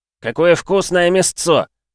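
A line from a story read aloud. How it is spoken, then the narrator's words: Joyful exclamation. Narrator (Russian): радостно воскликнув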